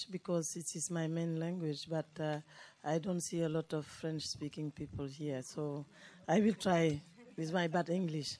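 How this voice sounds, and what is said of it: Hoarse, strained, nearly lost voice. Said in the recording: “lost my voice since yesterday”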